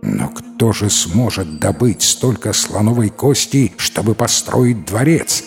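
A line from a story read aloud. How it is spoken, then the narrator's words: Plain. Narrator (Russian): спросил царь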